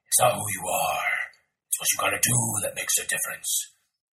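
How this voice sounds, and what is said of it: Unconvincing Batman voice impression. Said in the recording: “your Batman's not very good yet. ... if you're going to do the Batman voice like that”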